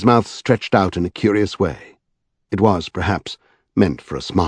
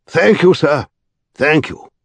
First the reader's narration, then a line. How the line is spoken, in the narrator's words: he called out hoarsely